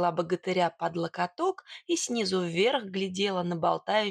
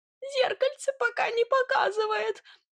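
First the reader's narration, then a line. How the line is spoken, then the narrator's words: Whining. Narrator (Russian): проскулил тот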